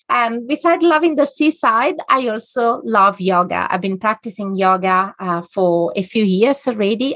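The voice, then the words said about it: Italian accent. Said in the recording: “As you probably recognize it from my accent, ... I'm Italian by origin.”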